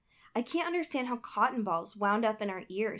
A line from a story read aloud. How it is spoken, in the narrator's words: she exclaimed